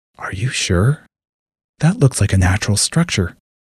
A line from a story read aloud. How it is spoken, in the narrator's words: Cyrus whispered